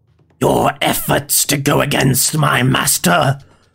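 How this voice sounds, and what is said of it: Attempted growling villain voice. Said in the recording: “Bad voice. ... Did that voice wrong. Did I try a growl?”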